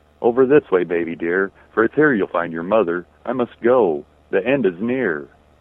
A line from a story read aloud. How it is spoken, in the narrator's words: I called out gently